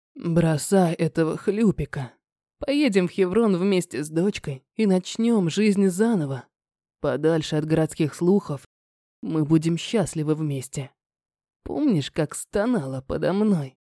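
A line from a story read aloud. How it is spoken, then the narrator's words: Breathy, intimate. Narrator (Russian): Выдохнул мне в губы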